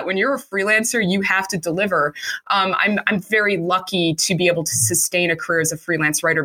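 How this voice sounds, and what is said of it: Chicago accent. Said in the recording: “my Chicago accent that I will never get rid of”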